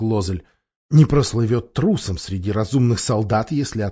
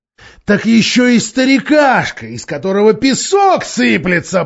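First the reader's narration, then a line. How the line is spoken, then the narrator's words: Roared. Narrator (Russian): проревел Мирас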